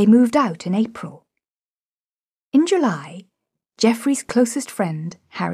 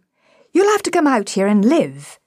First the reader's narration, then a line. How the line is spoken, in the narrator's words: said Geoffrey